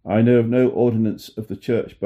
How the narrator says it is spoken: Barnes replied

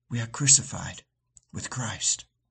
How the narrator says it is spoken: as she fell asleep, she whispered

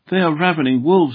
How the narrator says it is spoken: he exclaimed

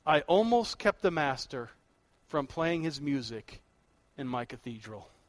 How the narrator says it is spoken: he said softly

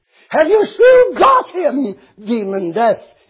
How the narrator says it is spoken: He screamed, his fiery veins bulging at his temples

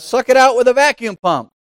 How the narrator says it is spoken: One man shouted

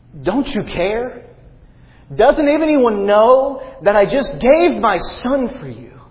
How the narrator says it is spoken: John screamed in agony

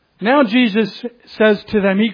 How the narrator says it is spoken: he cries out to them and he says

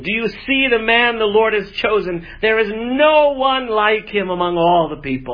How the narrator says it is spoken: Samuel exclaimed to all the people

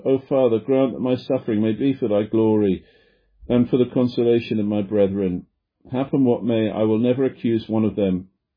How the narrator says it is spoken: He groaned heavily and cried to God

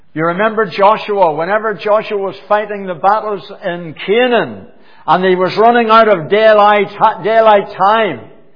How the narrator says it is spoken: he cried out

